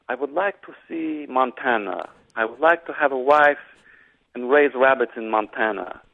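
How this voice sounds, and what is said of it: Sam Neill's Russian accent imitated. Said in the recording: “Sam Neill, in his best Russian accent”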